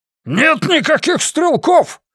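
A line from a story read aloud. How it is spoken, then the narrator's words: Roaring bellow. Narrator (Russian): взревел Оверхолсер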